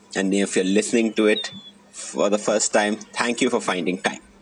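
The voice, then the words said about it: Indian English accent. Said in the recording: “in an Indian accent”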